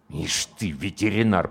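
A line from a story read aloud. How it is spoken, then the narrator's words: Commander speaking through teeth. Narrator (Russian): процедил комбат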